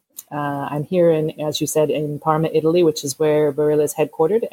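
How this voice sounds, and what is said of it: American accent. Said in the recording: “you can tell from my accent that probably I'm American”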